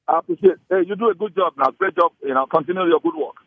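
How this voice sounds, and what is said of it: Nigerian accent. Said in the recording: “When I hear a Nigerian accent”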